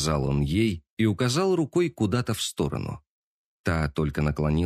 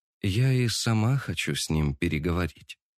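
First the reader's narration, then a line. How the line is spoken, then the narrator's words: Calm. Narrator (Russian): спокойно произнесла она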